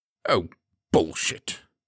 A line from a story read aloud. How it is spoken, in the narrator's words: Charles snapped